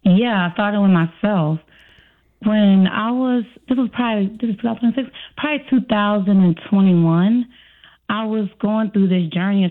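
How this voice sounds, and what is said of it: Slight regional American accent. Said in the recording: “I like your country accent... when I hear you talk, there is a slight accent”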